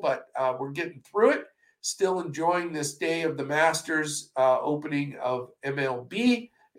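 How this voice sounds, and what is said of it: Congested voice from a cold. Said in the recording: “I apologize for this cold. I know I sound terrible,”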